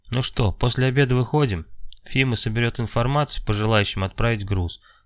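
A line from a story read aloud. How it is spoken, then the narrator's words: Plain. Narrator (Russian): сказал Иваныч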